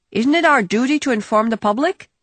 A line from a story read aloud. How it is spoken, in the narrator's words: shouted out a Dutch delegate